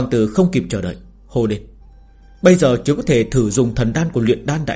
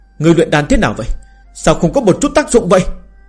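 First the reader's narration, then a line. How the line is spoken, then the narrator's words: Angry. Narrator (Vietnamese): tức giận nói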